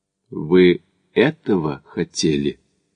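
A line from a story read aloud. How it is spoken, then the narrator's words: Quiet dejected question. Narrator (Russian): тихо спросил приунывший Макдональд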